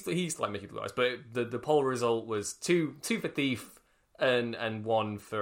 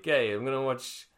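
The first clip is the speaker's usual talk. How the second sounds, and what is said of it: Put-on Italian-American accent. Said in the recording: “Why have I given him an Italian-American accent? Why is your dad now Italian?”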